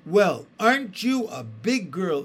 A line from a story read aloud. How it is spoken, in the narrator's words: exclaimed her mother